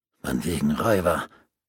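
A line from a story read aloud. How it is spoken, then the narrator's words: Gaunt farmer growling. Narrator (German): knurrte ein hagerer Bauer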